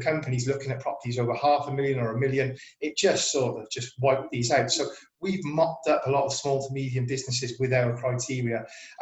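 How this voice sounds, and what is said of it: South Welsh accent. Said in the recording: “you can probably tell by the accent, we're based in South Wales”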